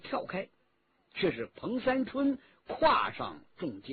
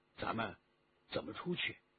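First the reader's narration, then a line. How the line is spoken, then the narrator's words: Quiet question. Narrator (Chinese): 于同低声地问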